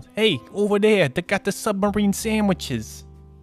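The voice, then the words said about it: Put-on New York accent. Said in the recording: “a guy named Vinny with a New York accent ... Just every background character of The Sopranos.”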